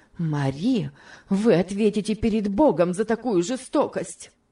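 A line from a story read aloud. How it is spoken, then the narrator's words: Heated exclamation. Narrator (Russian): горячо воскликнула мисс Офелия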